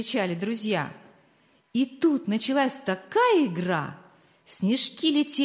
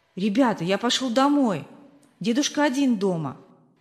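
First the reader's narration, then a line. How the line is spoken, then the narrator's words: Plain. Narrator (Russian): сказал он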